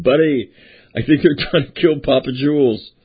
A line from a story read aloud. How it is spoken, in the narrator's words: while we're running, he's yelling